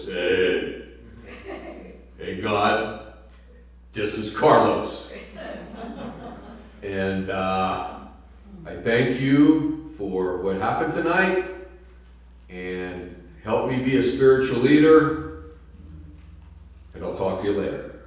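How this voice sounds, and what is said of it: Very deep male voice. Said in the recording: “he had a really deep voice.”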